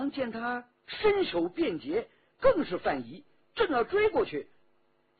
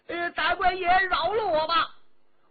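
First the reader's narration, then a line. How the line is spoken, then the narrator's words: Shouting. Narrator (Chinese): 矮子大叫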